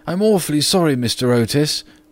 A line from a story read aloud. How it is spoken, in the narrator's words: gasped out the boy